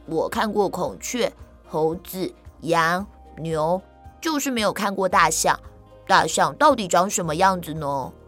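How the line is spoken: Smiling. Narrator (Chinese): 曹操笑着说

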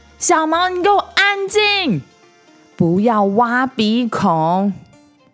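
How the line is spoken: Shouting from afar. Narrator (Chinese): 从餐厅的那一头对着小毛的房间大喊

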